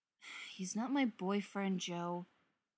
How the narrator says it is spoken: Kevin sighs, says

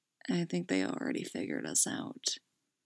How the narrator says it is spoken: murmuring low

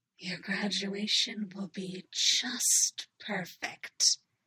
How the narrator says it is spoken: she whispered, her lips dragging against the shell of his ear

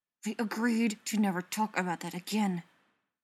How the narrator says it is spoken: Ryan hisses

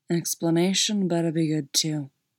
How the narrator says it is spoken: said, and it sounded just like a growl

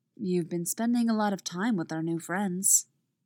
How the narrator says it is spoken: she says, her voice suspiciously clear of emotion

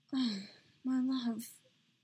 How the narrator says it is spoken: Padme breathed

